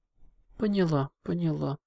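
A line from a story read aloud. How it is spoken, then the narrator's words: Sighed. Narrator (Russian): вздохнула Селестия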